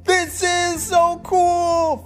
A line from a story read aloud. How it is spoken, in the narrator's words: Felix shouted